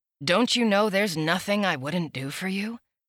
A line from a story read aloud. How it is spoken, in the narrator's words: He asked me gently